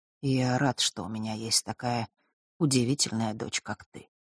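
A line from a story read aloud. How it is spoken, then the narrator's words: Quiet. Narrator (Russian): продолжил он тихо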